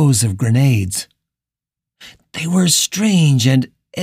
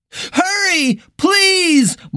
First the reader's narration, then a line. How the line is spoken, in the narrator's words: Morgan screamed, the desperation in her voice real now